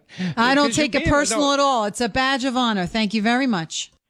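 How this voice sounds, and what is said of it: Very thick New York accent. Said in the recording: “A scale of 1 to 10, 10 being a very thick New York accent ... I'm going to give her a 10”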